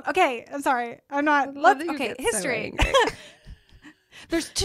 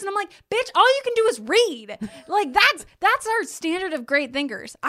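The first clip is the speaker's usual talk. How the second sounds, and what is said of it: Shouting. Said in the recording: “I'm shouting.”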